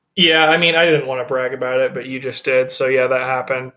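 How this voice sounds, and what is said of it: English accent. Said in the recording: “he noticed my accent. And I told him I'm from England”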